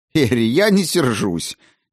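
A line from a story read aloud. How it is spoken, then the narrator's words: Involuntary laughter. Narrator (Russian): невольно рассмеялась Клара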